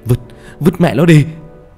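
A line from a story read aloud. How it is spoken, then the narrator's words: Shouted while running. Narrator (Vietnamese): Khánh vừa chạy vừa hét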